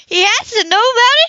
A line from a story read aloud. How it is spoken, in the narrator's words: she exclaimed